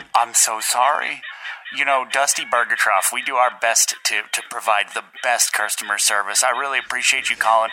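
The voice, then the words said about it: Put-on customer service accent. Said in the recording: “Stupid accent.”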